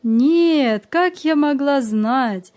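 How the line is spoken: Grandmother laughing. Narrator (Russian): засмеялась бабушка

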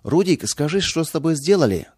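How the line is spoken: Shouting. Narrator (Russian): крикнула она

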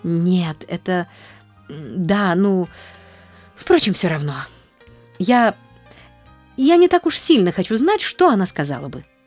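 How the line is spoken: Stammering. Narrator (Russian): запинаясь, вымолвила Нэнси

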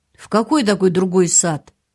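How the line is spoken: Barked. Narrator (Russian): рявкнул

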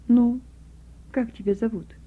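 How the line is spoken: Gentle teenage boy. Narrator (Russian): мальчик лет 15-16 ласково заговорил

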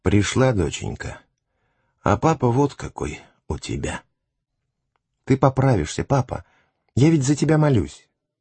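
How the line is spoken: Weak strained whisper. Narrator (Russian): хотя ему было тяжело разговаривать, но он все же прошептал

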